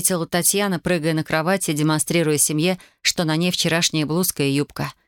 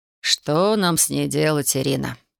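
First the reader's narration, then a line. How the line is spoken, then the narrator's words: Sighing father. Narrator (Russian): вздохнул отец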